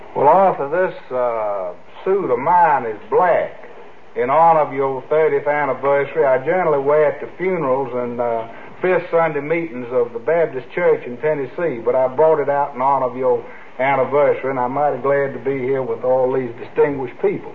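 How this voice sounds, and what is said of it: Put-on Tennessee accent. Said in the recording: “That's a good accent, isn't it? ... He works hard on that one.”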